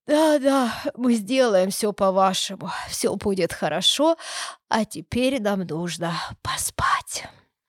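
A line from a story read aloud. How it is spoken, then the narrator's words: Mumbled. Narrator (Russian): успели пробормотать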